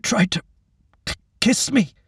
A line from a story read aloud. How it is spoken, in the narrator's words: Wyatt answered, his voice choked